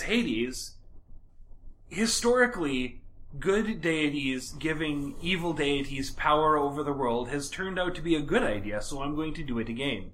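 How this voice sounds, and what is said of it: Sarcastic delivery. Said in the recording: “That was sarcasm”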